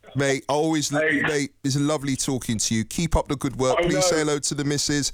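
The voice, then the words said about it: Slight London accent twang. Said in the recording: “London boy. Can hear that bit of a twang”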